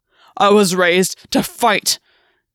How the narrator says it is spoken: Gwen said, his voice rough

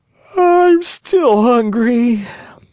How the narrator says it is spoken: he yawned deeply and wailed

